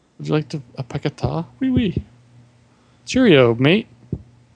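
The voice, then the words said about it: Put-on British accent. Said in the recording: “I'm just pretending I'm British with my accent.”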